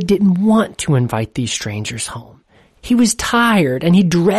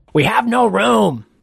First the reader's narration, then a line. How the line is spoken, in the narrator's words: shouted